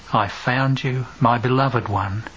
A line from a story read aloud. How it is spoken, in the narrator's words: weeps softly and continuously